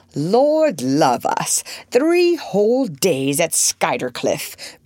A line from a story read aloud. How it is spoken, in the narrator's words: Beaufort was saying in his loud, sneering voice